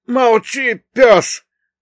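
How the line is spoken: Yelling. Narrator (Russian): тут же заорал третий

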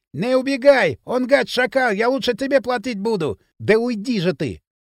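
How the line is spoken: Shouting after someone. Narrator (Russian): долго еще кричал что-то вдогонку

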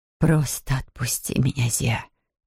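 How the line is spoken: Whisper. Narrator (Russian): прошептала Матер

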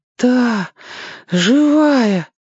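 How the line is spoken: Breathless, sobbing. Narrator (Russian): выдохнул Сёга и всхлипнул опять

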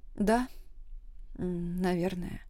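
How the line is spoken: Quiet reply. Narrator (Russian): тихо ответила я

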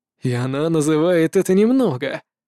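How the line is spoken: Grumbled under breath, monster. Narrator (Russian): проворчал про себя монстр

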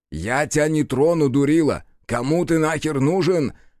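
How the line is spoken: Peaceable shout. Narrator (Russian): Миролюбиво крикнул Бучила

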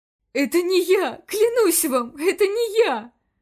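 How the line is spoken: Pleading. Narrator (Russian): Снова взмолился директор

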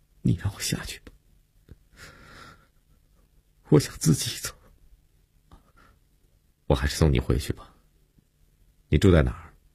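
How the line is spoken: Choked, sobbing. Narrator (Chinese): 悠悠哽咽着说

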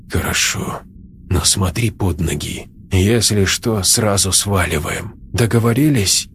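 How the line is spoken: Quiet. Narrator (Russian): Леша тихо сказал

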